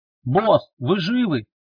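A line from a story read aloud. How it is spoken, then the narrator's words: Shouted from another room. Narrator (Russian): крикнул он из приемной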